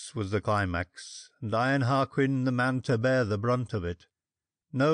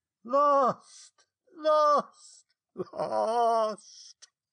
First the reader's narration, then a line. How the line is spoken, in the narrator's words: A terrible voice that hushed all else cried out three times